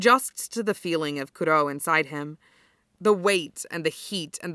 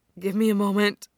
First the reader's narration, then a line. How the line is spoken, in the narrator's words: Kenma pants